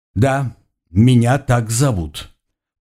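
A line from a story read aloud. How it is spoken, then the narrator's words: Forced calm. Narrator (Russian): постарался как можно более спокойно ответить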